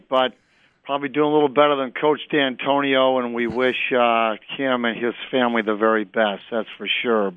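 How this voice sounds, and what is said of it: Hoarse voice. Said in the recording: “I'm a little hoarse from being a good Spartan on Saturday night ... a little hoarse”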